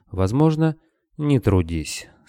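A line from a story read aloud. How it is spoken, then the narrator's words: Calm. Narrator (Russian): спокойно ответил Скадарский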